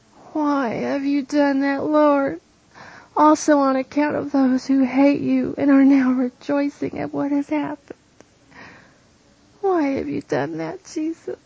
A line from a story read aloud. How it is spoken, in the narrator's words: she moans